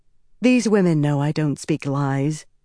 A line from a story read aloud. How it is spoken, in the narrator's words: Egwene said calmly